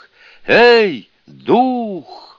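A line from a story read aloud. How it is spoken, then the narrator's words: Loud shout. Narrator (Russian): громко крикнул Сунь-Кун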